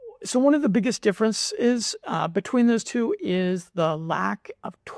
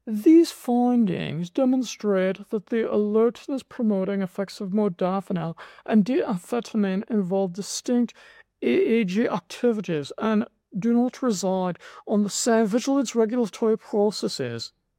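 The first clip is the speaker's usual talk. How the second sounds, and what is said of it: Put-on British accent. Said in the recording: “my funny British accent”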